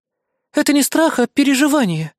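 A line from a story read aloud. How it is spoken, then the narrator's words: Girl sighing. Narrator (Russian): вздохнула девочка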